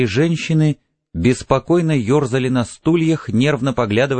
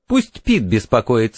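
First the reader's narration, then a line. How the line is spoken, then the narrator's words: Giggle. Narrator (Russian): хихикнула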